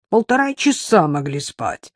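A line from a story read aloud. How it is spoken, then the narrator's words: Grumbling. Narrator (Russian): ворчала Ирка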